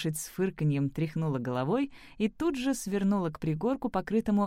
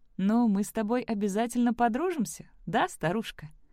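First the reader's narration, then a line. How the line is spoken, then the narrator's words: Joyful. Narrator (Russian): Сэм радостно сказала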